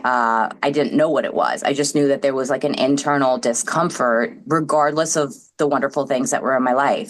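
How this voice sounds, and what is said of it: New York accent. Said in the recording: “I grew up in New York, which you could probably hear in the accent.”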